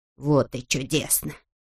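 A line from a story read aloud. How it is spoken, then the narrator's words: Gloating mutter. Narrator (Russian): со злорадной усмешкой бормотал он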